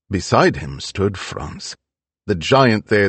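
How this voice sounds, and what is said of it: Usual voice. Nothing is said of it.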